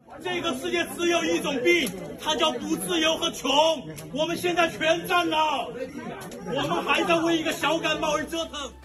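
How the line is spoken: Angry roar. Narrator (Chinese): 他怒吼道

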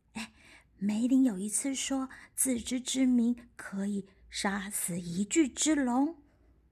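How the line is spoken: Whispering in ear. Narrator (Chinese): 瑞贝卡在武士耳朵小声的说

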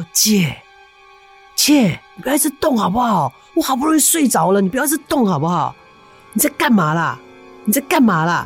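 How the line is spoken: Repeated whiny calling. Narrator (Chinese): 一直叫

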